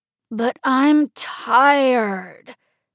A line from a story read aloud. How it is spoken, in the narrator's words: Mario groaned